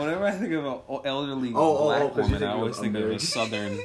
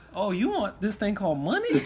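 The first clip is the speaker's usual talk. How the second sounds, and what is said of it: Put-on southern accent, elderly woman. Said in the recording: “Why do you keep giving my Jamaican grandma a southern accent, bro?”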